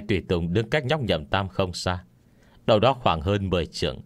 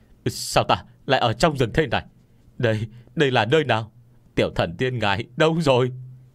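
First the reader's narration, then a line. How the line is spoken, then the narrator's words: Terrified screaming. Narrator (Vietnamese): bọn họ bị cảnh tượng trước mắt dọa cho hoảng sợ một phen, hét toáng lên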